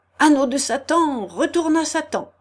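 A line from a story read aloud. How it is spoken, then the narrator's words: Crying out. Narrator (French): s'écria Thibault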